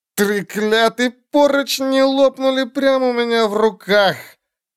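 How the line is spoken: Groaning. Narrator (Russian): Она застонала

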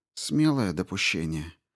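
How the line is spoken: Grumbled. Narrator (Russian): проворчала Дженсен

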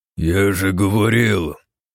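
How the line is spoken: Growled. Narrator (Russian): прорычал

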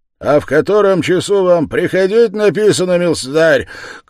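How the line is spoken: Offended shout, lieutenant. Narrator (Russian): крикнул поручик, все более и более неизвестно, чем оскорбляясь

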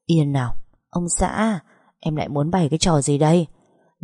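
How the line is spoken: Gentle, doting tone. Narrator (Vietnamese): ngữ điệu nhẹ nhàng lại phảng phất một chút cưng chiều

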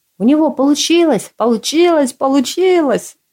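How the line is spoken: Frantic screaming. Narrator (Russian): Меланхоличного По будто подменили, вопил теперь как резанный

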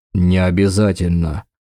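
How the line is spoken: Skeptical snort. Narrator (Russian): хмыкнул Дакар

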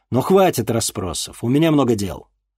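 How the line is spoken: Irritated snap. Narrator (Russian): раздраженно бросил Денис

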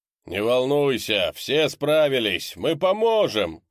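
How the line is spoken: Shout. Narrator (Russian): крикнул Декс

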